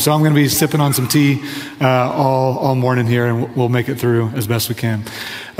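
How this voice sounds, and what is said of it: Strained, fading voice. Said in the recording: “I'm steadily losing my voice”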